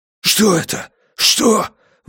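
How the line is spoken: Breathless son. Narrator (Russian): выдохнул сын

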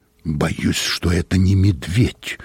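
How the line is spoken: Hollow muffled voice. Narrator (Russian): глухим голосом произнес хозяин

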